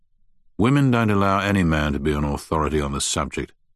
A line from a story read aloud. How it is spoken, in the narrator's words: said Finch bitterly